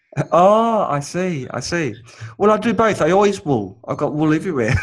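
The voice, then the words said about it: New Zealand accent. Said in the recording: “I have a New Zealand accent for some reason, and um, it sounds Australian to most people”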